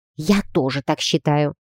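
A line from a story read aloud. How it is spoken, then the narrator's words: Hissing. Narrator (Russian): прошипела я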